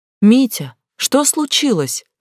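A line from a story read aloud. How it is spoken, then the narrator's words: Shout. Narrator (Russian): крикнула Глаша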